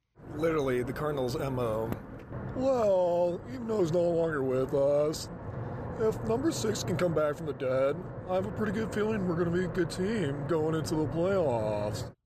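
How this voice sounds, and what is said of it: Snarky impression of a player. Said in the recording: “that is not a terrible impression... It's a tad bit snarky... It is snarky, but it kind of does sound like him.”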